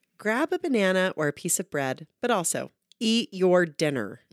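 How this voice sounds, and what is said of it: Emphatic mom voice. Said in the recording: “mom voice. That was a good mom voice. ... They wrote it in all caps, so I felt like it needed a little extra. ... That was a very good mom voice.”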